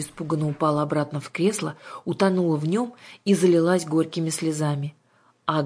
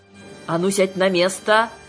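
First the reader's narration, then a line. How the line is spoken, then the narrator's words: Barked order. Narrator (Russian): рявкнула на нее Ага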